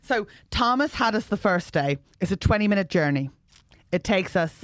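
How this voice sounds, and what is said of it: Put-on generic Irish accent. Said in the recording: “What accent are you doing? ... Midlands Island. ... Tullamore. ... You're not, though. It's creepy ... It's like every Irish accent all in one, but it doesn't make it, it's not specific enough.”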